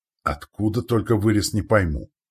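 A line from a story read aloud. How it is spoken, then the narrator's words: Grimy soldier exclaiming. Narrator (Russian): воскликнул чумазый пластун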